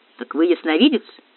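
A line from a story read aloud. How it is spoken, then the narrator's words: Unpleasant-voiced question. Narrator (Russian): тем же неприятным голосом спросил Кий Кронат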